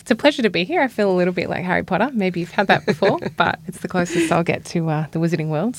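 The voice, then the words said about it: Australian accent. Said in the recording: “I have an accent from Australia.”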